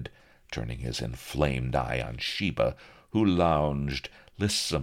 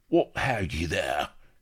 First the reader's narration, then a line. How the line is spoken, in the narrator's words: gasped he